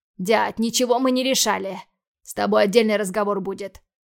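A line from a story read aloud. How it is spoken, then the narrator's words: Gruff bark. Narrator (Russian): рявкнул я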